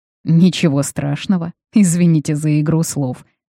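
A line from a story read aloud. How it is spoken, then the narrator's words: Ironic hmph. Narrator (Russian): хмыкнул дознаватель и как будто иронично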